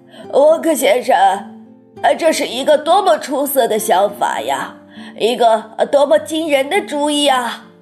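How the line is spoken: Old man shouting. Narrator (Chinese): 约瑟夫爷爷大叫

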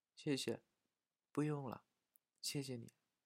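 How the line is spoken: Soft. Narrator (Chinese): 轻声地说

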